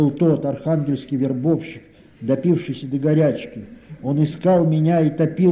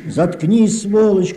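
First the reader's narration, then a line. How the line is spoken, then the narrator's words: Shouting through tears. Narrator (Russian): крикнул я сквозь слезы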